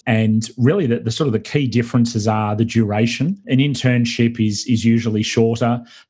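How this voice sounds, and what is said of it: Australian accent. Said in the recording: “This is not a Brooklyn accent. This is an Australian accent.”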